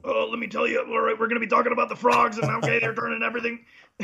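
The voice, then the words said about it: Imitates another person's voice. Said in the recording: “I'll be the Alex Jones of BMX ... you're going to hurt yourself trying to do that voice for any longer ... It's so bad”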